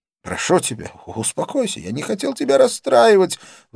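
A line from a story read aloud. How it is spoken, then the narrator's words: Man pleading. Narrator (Russian): взмолился он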